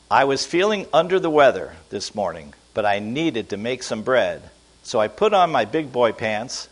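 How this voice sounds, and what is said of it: Slow, deliberate reading aloud. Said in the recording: “I'm going to read this very slowly ... I'm going to read it slowly.”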